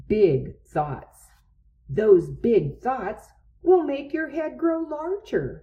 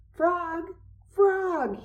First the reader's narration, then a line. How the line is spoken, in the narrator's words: cried